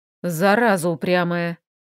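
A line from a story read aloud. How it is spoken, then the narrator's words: Elf's grumble. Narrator (Russian): пробурчал эльф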